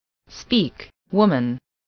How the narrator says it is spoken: said another voice, coldly and sternly, proceeding from the crowd about the scaffold

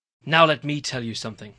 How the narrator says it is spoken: I snapped into the mic

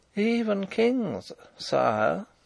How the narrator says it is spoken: said Rupert in a moralising tone

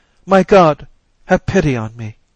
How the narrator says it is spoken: weeping, weeping, and she cried

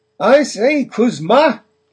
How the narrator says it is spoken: voices kept shouting in confusion

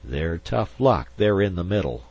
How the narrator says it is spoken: Zorn muttered

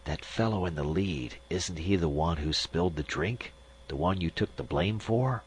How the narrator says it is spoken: he said in a whisper

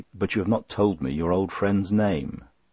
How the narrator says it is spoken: said, rather wearily

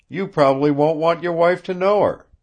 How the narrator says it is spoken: laughed

